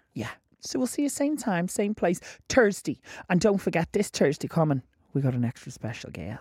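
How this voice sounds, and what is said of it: Put-on Irish accent. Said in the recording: “Why am I doing an Irish accent?”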